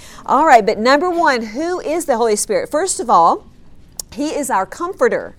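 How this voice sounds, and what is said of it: Loud, shouting delivery. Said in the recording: “I'll talk a little bit louder ... I'm shouting at them”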